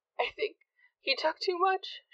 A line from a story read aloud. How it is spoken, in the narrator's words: said, sobbing